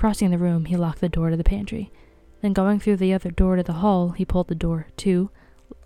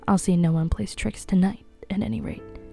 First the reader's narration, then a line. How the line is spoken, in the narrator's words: He murmured